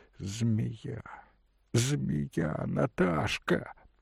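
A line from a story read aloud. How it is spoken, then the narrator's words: Trembling whisper. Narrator (Russian): дрожа губами шептала Евдокия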